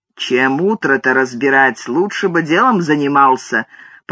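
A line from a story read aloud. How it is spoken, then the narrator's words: Old man grumbling. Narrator (Russian): проворчал в ответ старый Джон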